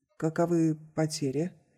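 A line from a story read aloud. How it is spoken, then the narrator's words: Quiet question. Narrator (Russian): капитан тихо спросил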